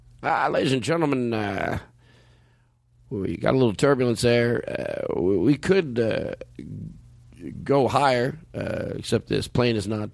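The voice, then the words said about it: Airline pilot voice impression. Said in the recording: “I'll do the pilot voice.”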